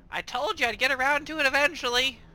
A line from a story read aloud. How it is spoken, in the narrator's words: Ticket just kind of yells out